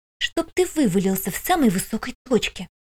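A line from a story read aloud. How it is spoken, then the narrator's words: Very quiet hiss. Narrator (Russian): Прошипела так тихо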